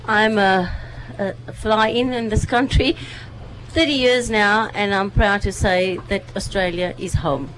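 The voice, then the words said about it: South African accent. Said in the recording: “a South African accent”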